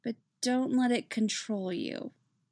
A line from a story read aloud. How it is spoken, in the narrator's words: mumbles into his hair